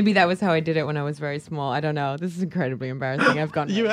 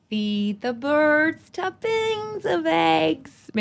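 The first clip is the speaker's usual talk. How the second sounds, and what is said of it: Singing in put-on American accent. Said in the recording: “I'll do it in my American accent.”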